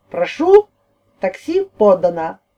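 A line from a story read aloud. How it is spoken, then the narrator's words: Joyful speech. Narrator (Russian): радостно произнес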